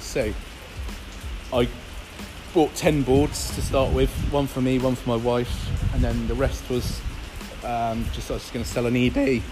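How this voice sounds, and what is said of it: Strained, fading voice. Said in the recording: “my voice is going, I've got a bit of a cold”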